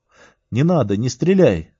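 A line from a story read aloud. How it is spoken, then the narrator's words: Shouted. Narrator (Russian): крикнул я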